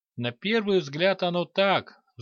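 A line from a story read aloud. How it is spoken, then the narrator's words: Old man's sigh. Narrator (Russian): вздохнул старый мастер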